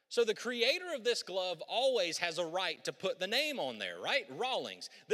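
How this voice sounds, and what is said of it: Southern American drawl. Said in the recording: “You can tell that southern drawl I have”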